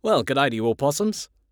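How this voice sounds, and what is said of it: Put-on Australian accent. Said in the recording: “I start talking in an Australian accent.”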